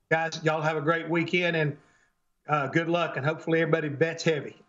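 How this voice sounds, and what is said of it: Noticeable regional accent. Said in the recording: “You can tell by the accent that he is authentic”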